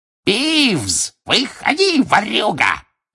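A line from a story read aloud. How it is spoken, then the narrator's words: Gleeful yell. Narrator (Russian): ликуя, заорал Филч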